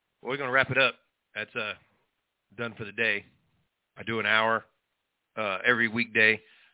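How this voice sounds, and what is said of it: Hoarse, fading voice. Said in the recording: “I'm losing my voice already”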